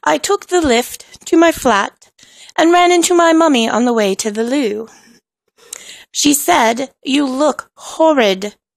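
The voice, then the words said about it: Inaccurate put-on British accent. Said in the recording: “I am speaking to you in a very inaccurate and probably offensive British accent”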